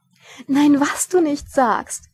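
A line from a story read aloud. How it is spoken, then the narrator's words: Giggling. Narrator (German): kicherte Lady Sybil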